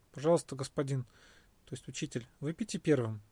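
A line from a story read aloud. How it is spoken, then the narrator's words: Stunned mumble. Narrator (Russian): Ошеломленный Свасти пробормотал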